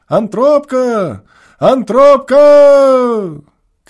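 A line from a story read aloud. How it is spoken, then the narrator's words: Tearful desperate drawn-out shout. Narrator (Russian): Кричал он с упорным и слезливым отчаянием, долго, долго вытягивая последний слог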